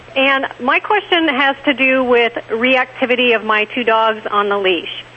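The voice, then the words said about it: Wisconsin accent. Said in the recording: “I love your voice. Are you from Texas? ... I'm from Wisconsin originally, which is what my accent is.”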